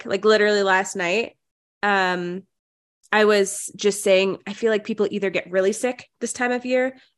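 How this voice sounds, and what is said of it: Nasal, congested voice. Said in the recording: “I sound nasally. ... my body decided that I was going to be sick today”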